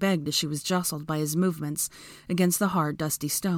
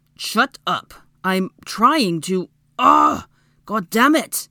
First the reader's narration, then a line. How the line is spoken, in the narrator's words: roared in frustration